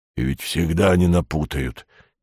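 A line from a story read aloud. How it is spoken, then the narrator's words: Quiet voice from below. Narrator (Russian): негромко сказали внизу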